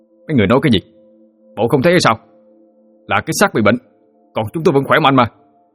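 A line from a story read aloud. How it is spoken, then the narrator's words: Ghostly man shouting. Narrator (Vietnamese): Linh hồn người đàn ông hét lên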